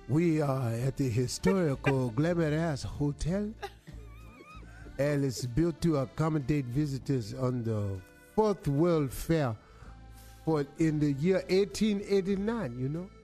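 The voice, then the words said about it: African accent. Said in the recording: “You sound African.”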